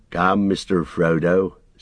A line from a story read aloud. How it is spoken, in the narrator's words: said Sam